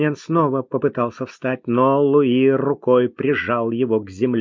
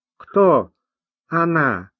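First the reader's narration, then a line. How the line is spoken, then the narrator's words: Doubtful drawl. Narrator (Russian): недоверчиво протянул Тавянян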